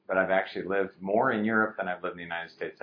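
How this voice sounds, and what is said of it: American English accent. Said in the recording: “My accent betrays that I grew up in the United States.”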